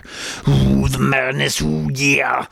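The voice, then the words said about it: Loud Macho Man impression. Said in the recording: “The Macho Man. I can do a better impression. I just feel like I'm going to be talking too loud”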